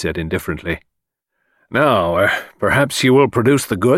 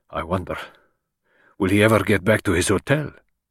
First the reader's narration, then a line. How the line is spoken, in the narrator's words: He muttered